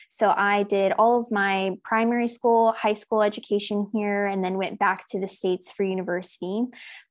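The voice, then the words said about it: American accent. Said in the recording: “you can hear from my accent that I'm originally from the United States”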